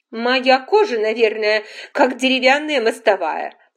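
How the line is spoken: Loud. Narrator (Russian): сказала громко

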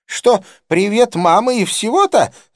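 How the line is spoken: Yelling. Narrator (Russian): завопила она

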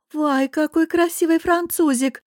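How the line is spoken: Babbling, flirtatious. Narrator (Russian): пролепетала Анжела

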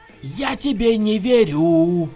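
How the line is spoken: Hoarse outburst. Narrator (Russian): Хрипло ворвалось

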